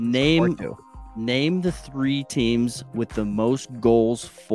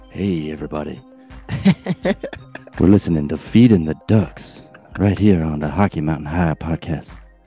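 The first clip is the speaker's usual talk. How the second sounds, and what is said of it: Smooth sexy radio DJ voice. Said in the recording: “put on my sexy DJ voice”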